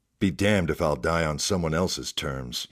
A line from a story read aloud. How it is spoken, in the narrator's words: he muttered